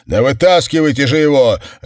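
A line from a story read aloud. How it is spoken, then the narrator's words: Bark. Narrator (Russian): рявкнул Сэм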